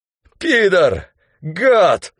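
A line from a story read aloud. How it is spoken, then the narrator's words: Hoarse wheeze. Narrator (Russian): хрипел Спирка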